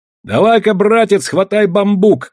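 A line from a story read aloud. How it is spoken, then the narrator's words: Shouting. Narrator (Russian): крикнул я Тайдэю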